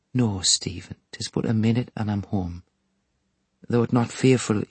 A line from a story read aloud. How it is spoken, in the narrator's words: said it in a low voice